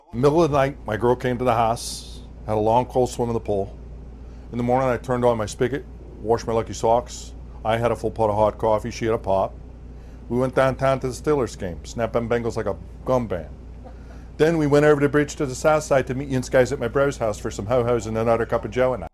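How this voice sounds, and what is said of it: Well-done Pittsburghese accent. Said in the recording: “he nails it ... He does very good ... a very well-perfected Pittsburghese accent”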